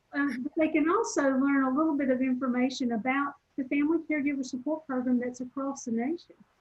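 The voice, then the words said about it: Southern US accent. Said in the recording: “my Southern accent that people often stop and go, where are you from?”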